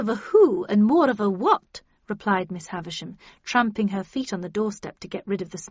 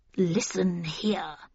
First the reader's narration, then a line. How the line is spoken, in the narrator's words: she said, her voice quavering with anger